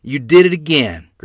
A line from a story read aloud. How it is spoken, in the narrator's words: Grandmother said